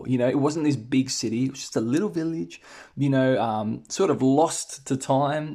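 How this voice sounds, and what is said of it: Australian accent. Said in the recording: “I'm Australian, guys. If you haven't already noticed from my accent”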